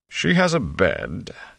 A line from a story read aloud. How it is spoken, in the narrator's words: Tom said dryly